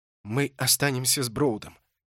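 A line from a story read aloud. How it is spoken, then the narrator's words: Whispered. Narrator (Russian): прошептал Холт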